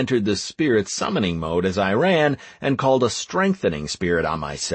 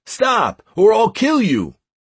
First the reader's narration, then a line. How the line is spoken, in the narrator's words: the shouts of